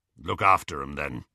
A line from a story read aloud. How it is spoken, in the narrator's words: said Aberforth gruffly